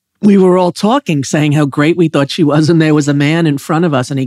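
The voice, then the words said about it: New York accent. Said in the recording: “my New York accent that you love so much”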